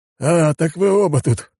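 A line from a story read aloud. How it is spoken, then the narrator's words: Left-hander's scoffing grunt. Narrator (Russian): хмыкнул левша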